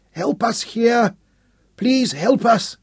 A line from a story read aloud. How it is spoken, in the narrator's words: Rohan cried out weakly on his back